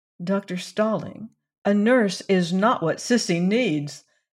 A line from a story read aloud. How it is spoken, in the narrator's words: said Valency earnestly